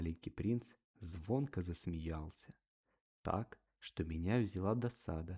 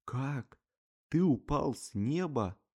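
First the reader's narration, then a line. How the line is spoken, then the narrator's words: Child's exclamation. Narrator (Russian): малыш воскликнул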